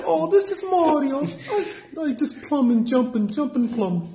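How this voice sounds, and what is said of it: Mario impression, like Italian grandmother. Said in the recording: “Your Mario impression ... You just you sound like an Italian grandmother ... he sound more like Peach and Mario”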